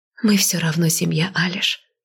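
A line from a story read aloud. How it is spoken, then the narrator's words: Quiet. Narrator (Russian): тихо произнесла я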